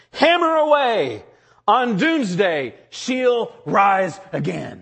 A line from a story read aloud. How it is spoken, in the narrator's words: Luther screamed out